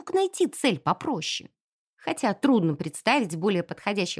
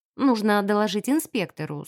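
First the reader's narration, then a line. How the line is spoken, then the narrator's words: Plain. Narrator (Russian): сказала я наконец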